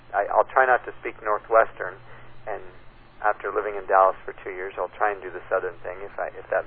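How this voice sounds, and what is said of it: Usual voice. Nothing is said of it.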